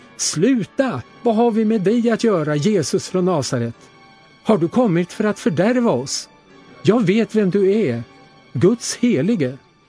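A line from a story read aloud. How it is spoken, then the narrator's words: Loud scream. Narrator (Swedish): skrek högt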